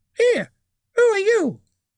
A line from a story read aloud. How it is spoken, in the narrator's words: it squeaked